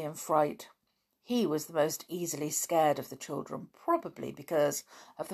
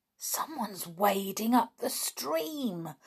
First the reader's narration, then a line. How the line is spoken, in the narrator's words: whispered Dick in astonishment